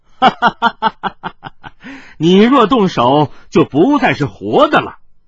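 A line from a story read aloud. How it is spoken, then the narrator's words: Laughing young scholar. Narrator (Chinese): 少年秀士大笑着说道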